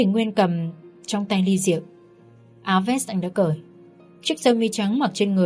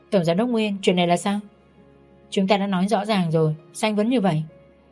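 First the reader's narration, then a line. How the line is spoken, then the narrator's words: Cool flat tone. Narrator (Vietnamese): Tôi nói với giọng lành nhạt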